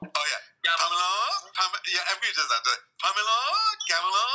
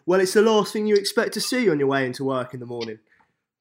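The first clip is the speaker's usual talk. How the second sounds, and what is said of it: Attempted Essex accent, slightly Welsh. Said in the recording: “I want to hear your Essex accent... Oh, it was so close. It was just the way. Yeah, the way was just a bit Welsh.”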